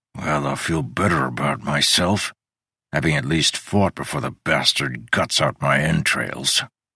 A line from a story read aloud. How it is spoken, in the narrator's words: muttered